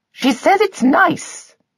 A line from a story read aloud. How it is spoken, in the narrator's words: she affirmed loudly